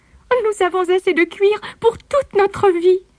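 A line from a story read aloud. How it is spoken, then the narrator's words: Exclamation. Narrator (French): s'exclama-t-elle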